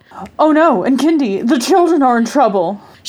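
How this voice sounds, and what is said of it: Damsel in distress voice. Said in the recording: “best damsel in distress impression”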